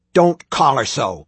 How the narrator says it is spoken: Tim spat

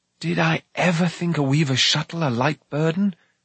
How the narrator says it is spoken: Taran sighed

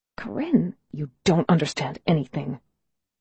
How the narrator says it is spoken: she says, her voice low and fierce

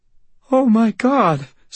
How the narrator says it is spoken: Sarah whimpered, her voice a strangled little whisper

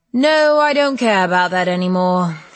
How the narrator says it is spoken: he sighed

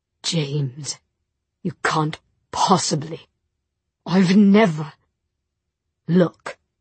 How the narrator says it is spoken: In a choked voice, he said

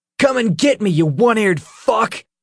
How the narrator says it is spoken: He shouted and let loose a wild hoot

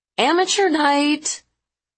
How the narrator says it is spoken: Ariel yelled

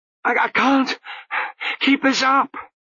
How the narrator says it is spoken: he panted, running after Lutzer in a violent gloom

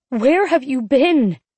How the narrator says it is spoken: I was shouting and shaking

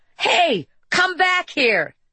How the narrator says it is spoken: she yelled

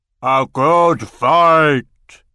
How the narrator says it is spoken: roared Garshvog

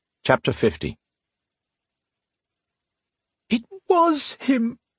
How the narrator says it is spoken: Sonya pleaded through her tears

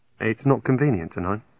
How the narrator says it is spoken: I said

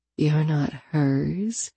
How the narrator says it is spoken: I murmured

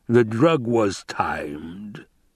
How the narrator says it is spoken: he rumbled

